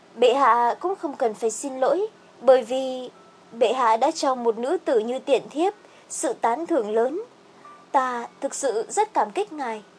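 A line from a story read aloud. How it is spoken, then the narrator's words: Soft, smiling. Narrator (Vietnamese): Khương Trầm Ngư mỉm cười dịu giọng nói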